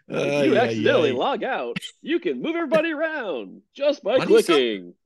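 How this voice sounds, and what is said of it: Automated phone tech-support voice. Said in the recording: “Why do you sound like a movie phone? ... This is my tech support voice. ... Now it's a little Jerry Seinfeld-ish.”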